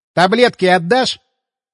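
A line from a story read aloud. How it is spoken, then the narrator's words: Indignant snort. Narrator (Russian): Я возмущенно фыркнул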